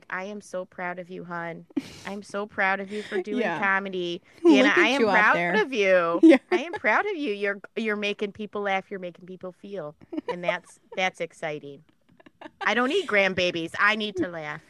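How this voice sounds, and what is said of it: Put-on Midwestern mom accent. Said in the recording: “I love this accent. ... I love being from the Midwest.”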